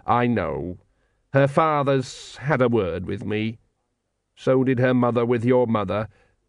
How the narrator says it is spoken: said the dwarf coldly

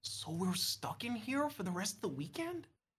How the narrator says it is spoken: He whispers, sounding scared

